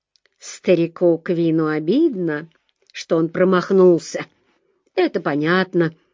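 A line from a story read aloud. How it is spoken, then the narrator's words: Calmer. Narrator (Russian): сказал уже более спокойно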